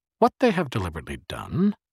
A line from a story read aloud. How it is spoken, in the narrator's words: said cheerfully as he labored